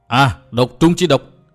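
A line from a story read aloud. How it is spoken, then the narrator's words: Shouting. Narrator (Vietnamese): Vừa hét, Lạc Tử Khư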